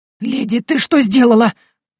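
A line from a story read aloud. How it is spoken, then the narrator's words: Agitated exclamation. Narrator (Russian): взволнованно воскликнул Дон Ивен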